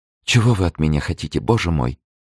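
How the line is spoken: Whisper. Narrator (Russian): прошептала Лавальер

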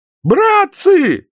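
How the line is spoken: High-pitched yell. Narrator (Russian): заорал кто-то высоким голосом

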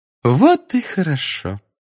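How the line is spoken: Sweet sing-song voice. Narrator (Russian): сладким голосом пропела профессор Амбридж

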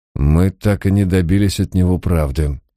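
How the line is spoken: Angry muttering. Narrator (Russian): сердито пробормотал сэр Джейкоб

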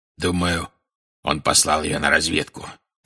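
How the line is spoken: Growl. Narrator (Russian): прорычал Грюм

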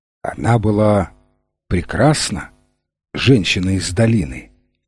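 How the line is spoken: Soft question. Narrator (Russian): мягко спросил слепой судья

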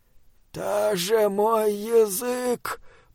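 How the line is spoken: Moan. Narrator (Russian): простонал он

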